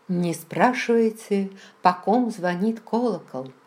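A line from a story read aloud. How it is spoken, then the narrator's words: Plain. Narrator (Russian): сказала я Раймону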